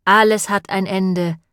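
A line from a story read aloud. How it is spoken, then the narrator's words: Sighing. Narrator (German): seufzte Sarah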